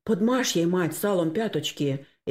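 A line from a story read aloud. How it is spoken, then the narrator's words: Frightened. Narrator (Russian): испуганно проговорил Максим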